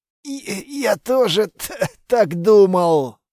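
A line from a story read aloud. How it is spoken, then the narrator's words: Strained wheeze. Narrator (Russian): с трудом прохрипел Литвин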